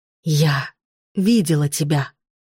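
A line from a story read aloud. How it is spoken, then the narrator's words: Whisper. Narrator (Russian): прошептала она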